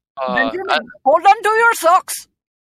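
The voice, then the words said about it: Put-on Indian accent. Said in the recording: “that's how I got my first Indian accent ... That's my first go-around with the Indian accent.”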